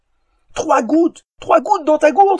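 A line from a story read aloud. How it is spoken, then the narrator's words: Shouted. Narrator (French): cria Éoliel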